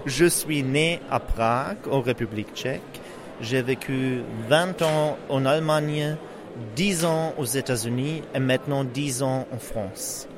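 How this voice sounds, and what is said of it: Foreign accent speaking French. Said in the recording (French): “vous avez un accent... ce n'est pas un accent marseillais”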